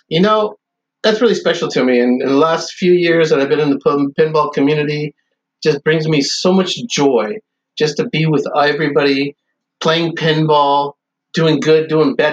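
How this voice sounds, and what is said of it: Choked-up, emotional voice. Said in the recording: “little choked up”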